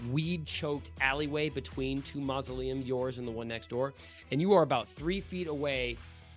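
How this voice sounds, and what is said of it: Usual voice. Nothing is said of it.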